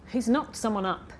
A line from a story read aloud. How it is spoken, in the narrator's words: Aoife muttered